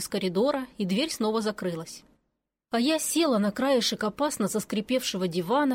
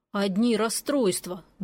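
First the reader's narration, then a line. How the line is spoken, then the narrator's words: Grumbling. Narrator (Russian): буркнул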